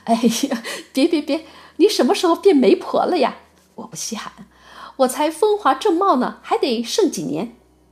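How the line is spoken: Laughing. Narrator (Chinese): 珠儿笑着说

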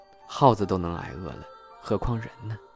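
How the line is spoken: Sighing. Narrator (Chinese): 二狗叹口气

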